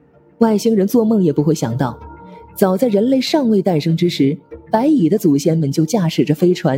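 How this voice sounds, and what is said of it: Usual voice. Nothing is said of it.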